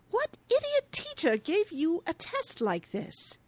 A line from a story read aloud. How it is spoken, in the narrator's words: scoffs, asking